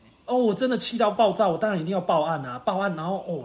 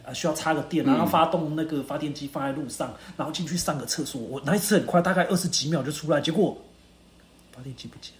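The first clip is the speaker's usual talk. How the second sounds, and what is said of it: Speaking very quietly. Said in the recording (Chinese): “你不用讲那么小声”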